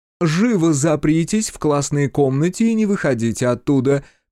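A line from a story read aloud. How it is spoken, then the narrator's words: Shouted. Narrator (Russian): крикнула мисс Данбар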